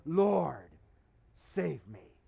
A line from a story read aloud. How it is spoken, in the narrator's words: Peter cried